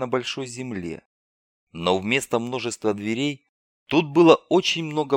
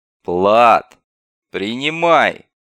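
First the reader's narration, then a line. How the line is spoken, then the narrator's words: Guard's harsh bark. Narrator (Russian): гаркнул один из конвоиров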